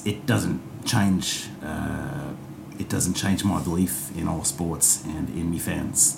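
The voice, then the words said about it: Put-on Australian accent. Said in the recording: “My accents come from being so exposed to Australian sports... me Australian accent”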